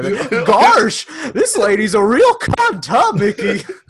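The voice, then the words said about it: Cartoon Goofy character voice. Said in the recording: “I've been doing the Goofy accent. Goofy from Disney World or Disney.”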